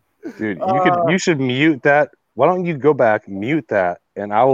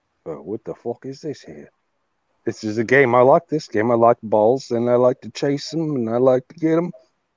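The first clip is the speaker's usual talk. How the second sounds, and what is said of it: Put-on British accent. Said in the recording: “I will narrate the dog stops with a British accent ... With a British accent.”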